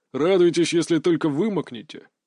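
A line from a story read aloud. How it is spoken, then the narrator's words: Snorted. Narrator (Russian): фыркнул его взводный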